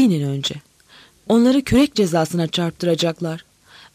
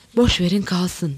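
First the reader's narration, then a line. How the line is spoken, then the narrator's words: Whispered. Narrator (Turkish): dedi fısıldayarak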